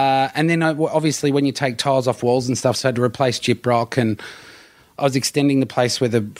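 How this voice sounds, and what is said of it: Usual voice. Nothing is said of it.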